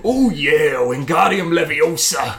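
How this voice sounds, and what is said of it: Imitates another person's voice. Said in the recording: “terrible Randy Savage impression”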